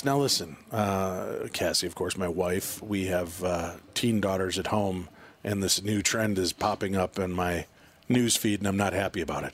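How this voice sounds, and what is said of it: Calm public-radio announcer voice. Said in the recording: “my voice is suddenly taking on this NPR voice”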